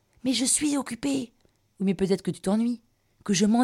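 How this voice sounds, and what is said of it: Usual voice. Nothing is said of it.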